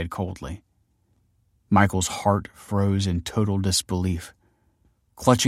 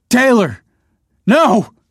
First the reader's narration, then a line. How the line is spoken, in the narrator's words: he screamed